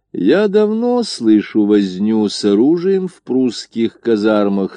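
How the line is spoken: Very calm. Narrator (Russian): сказал Горчаков столь спокойно

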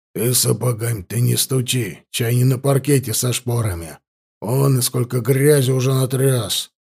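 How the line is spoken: Grumbling. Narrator (Russian): проворчал Вильгельм Карпович

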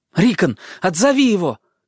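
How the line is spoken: Shouted. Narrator (Russian): крикнул Бран

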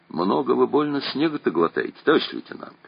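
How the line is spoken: Timid remark. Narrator (Russian): робко заметил Чибисов

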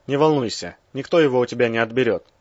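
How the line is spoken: Breathless exhale. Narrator (Russian): выдохнул Березов

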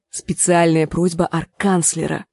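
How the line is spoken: Whisper. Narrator (Russian): Гленда склонилась к ней и шепнула

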